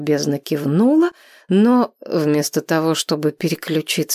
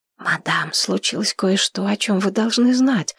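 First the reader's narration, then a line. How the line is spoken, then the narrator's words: Whisper. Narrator (Russian): шепотом произнесла Зейнеп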